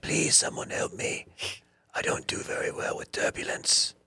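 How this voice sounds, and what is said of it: Cat character with Transylvanian accent. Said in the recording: “Also has an accent. ... Are you from Transylvania?”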